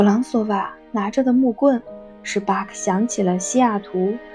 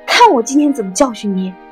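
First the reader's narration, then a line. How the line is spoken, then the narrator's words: Furious roar. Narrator (Chinese): 弗朗索瓦愤怒到了极点 怒气冲冲地 朝他大声吼道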